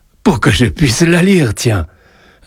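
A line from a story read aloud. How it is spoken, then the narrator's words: Amused reply. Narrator (French): répondit Joseph d'un ton amusé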